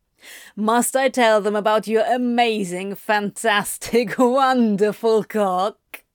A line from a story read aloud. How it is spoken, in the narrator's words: Antony laughed